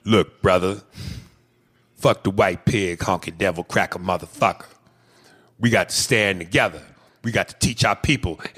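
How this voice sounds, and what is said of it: Militant activist character voice. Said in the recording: “Can you do the militant impersonation you always do? It cracks me up.”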